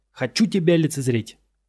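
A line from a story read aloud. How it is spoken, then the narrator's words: Barking. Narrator (Russian): рявкнул он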